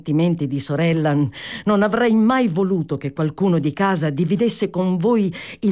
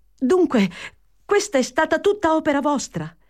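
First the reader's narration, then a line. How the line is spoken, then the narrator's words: Exclaimed. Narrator (Italian): esclamò Fanny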